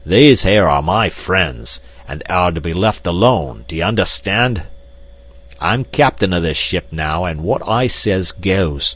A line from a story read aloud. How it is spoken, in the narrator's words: With a loud roar, Black Michael cried